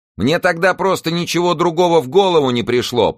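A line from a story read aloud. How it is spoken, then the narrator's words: Shouting. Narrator (Russian): прокричала она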